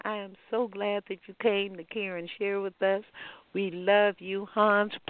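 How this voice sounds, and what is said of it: Texas twang accent. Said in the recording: “that Texas twang”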